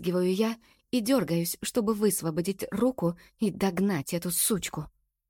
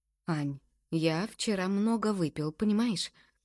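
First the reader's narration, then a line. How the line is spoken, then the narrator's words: Calm tone. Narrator (Russian): спокойным тоном говорит Макс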